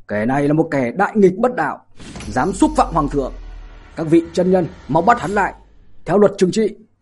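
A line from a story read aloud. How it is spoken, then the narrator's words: Loud shout. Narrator (Vietnamese): hắn lớn tiếng hét lên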